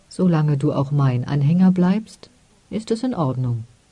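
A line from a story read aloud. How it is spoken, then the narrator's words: Gentle. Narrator (German): sagte sanft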